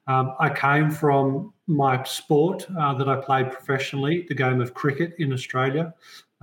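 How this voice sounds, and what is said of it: Australian accent. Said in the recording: “as most people can tell from my accent, I'm actually an Aussie”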